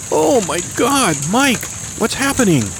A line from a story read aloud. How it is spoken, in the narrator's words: Manette screamed